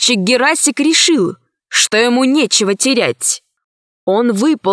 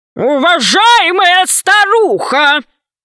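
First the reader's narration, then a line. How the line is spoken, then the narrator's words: Thunderous voice. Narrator (Russian): громовым голосом произнес Громозека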